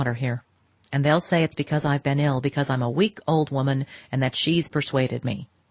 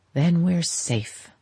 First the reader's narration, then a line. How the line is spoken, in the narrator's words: she sighed